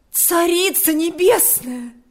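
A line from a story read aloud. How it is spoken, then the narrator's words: Exclaimed. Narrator (Russian): воскликнула она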